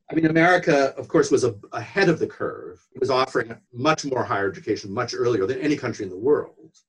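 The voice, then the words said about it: American accent. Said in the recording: “your home country, America ... in terms of what you can hear in my accent”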